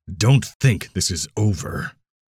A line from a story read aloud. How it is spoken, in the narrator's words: Mammon said, making sure Finn heard the growl in his voice